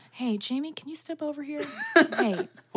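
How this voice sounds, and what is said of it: Whispered parental voice. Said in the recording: “You got a great parent whisper.”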